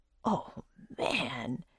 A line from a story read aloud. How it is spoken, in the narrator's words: whispered Jack